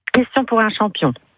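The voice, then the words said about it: Poor imitation of another person's voice. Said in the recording (French): “très mauvaise imitation... J'ai essayé, hein, j'ai essayé de faire mon Julien Lepers, mais c'est très très mauvais.”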